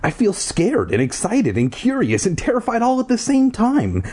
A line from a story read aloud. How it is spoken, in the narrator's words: Ashley exclaimed